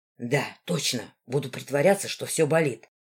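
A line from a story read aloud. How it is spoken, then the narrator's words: Said in a whisper. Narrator (Russian): почему-то шепотом сказал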